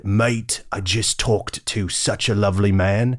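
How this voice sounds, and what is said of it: Attempted English accent. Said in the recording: “my attempt at an English accent”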